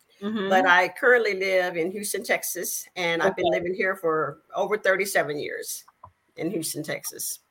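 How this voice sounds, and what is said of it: Southern Arkansas accent. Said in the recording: “I am originally born in a little small town in Arkansas. And you may be able to tell by my accent.”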